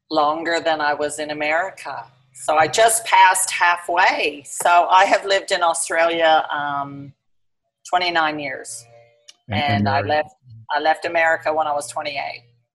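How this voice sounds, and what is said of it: Slight Australian and Southern accent. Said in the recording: “a slight Australian accent and a slight Southern accent”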